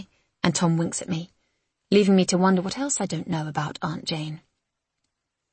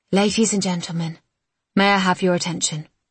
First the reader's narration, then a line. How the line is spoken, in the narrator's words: says Lizzie's father